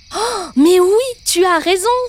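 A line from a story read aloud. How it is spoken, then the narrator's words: Exclaimed. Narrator (French): s'exclama Samy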